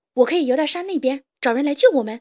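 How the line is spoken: Sudden shout. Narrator (Chinese): 弗洛格忽然大叫一声

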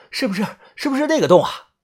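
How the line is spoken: Panting. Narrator (Chinese): 把头也喘着气

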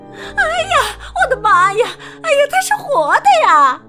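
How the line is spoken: Woman screaming. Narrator (Chinese): 女士尖叫起来

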